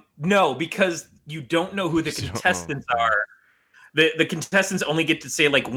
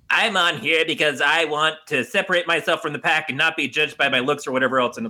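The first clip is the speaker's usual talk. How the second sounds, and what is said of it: Mocking weird put-on voice. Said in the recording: “weird voice”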